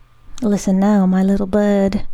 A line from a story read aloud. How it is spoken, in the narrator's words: she said